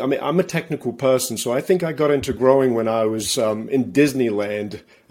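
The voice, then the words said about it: English accent. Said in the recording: “I'm originally from England. That's where my accent comes from.”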